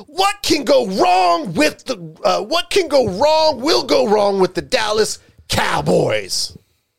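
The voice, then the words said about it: Imitates another person's voice. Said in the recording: “I'll say it in my best Stephen A. Smith impersonation.”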